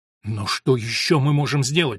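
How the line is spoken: Exclaiming. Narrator (Russian): воскликнул Милиус

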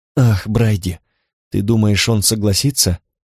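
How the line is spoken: Sighing. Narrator (Russian): вздохнула Корделия

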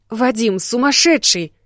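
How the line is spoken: Exclamation. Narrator (Russian): Воскликнула

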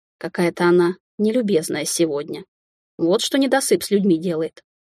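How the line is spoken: Muttering. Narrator (Russian): пробормотала я

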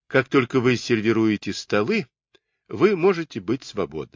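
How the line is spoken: Plain. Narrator (Russian): сказал он

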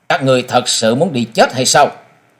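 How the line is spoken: Cold. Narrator (Vietnamese): Mỹ thiếu niên lạnh lùng nói

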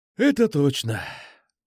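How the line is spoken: Sighing. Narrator (Russian): вздохнул

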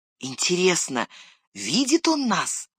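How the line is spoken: Whisper. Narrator (Russian): прошептал Сэм

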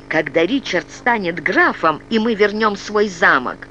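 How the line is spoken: Angry blurt. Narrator (Russian): зло выпалила она

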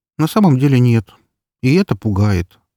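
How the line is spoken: Sighing. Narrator (Russian): вздохнула Эльсейка

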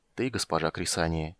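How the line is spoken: Quiet reply. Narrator (Russian): тихо ответил Карамон

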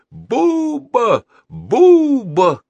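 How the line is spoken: Crowd shouting. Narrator (Russian): кричали из публики

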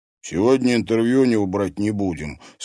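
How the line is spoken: Plain. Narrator (Russian): сказал Димка

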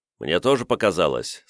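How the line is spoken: Calm. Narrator (Russian): спокойно кивнул Сирвидас

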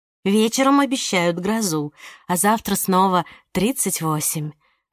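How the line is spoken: Sigh. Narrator (Russian): вздохнула Милена

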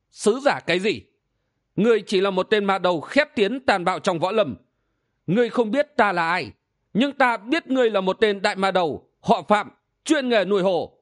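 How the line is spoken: Bound man laughing loudly. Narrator (Vietnamese): Người bị trói cười lớn

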